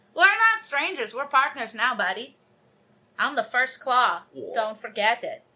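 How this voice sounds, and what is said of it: Put-on character accent, drifting. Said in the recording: “What is this accent? It's really getting away from me.”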